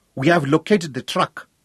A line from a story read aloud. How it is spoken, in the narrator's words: he translated triumphantly